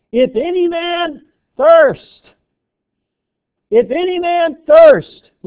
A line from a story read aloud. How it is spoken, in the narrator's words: Jesus ... with a loud voice, he shouts out